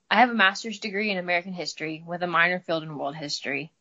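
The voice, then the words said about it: Slight Midwestern American drawl. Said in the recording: “you have a nice accent ... I'm from the Midwest, so I got a little bit of a drawl.”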